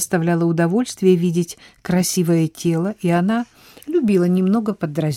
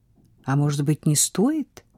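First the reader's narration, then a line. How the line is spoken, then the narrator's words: Whisper. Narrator (Russian): прошептала Эммануэль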